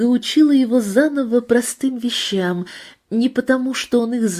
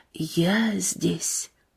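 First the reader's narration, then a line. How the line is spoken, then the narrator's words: Whispered. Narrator (Russian): Игорь шептал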